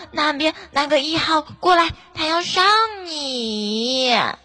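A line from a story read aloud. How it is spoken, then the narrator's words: Calm loud shout. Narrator (Chinese): 那班长不慌不忙的大声叫道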